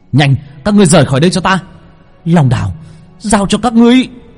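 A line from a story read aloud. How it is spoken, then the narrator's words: Shout. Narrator (Vietnamese): Long Vân hét lên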